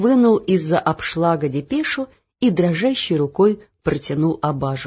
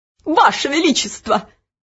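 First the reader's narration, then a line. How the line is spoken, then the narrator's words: High, cracking cry. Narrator (Russian): Высоким срывающимся голосом вскрикнул Нушрок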